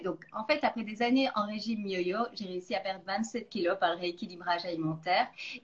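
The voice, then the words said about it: Slight Belgian French accent. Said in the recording (French): “je suis d'origine belge. Je pense qu'il y a encore un petit accent qui doit rester”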